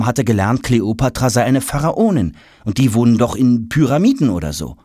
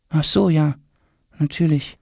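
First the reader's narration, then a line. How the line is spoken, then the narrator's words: Murmured. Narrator (German): murmelt Tom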